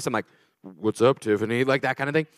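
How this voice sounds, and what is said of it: Deliberately lowered, deeper voice. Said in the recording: “I lower my voice.”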